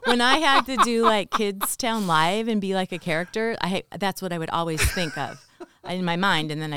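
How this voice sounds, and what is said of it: Usual voice. Nothing is said of it.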